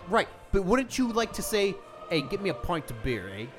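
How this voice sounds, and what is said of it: Put-on Canadian-ish accent. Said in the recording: “What the fuck accent was that? ... A little bit of Canada. ... You sounded like a hipster said, from the South.”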